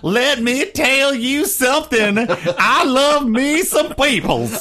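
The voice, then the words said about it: Hillary Clinton impression, put-on Southern accent. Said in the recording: “Hillary Clinton was going to lapse into her Southern accent”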